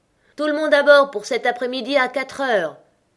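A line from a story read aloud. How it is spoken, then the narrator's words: Shouted from afar. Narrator (French): cria de loin le chevalier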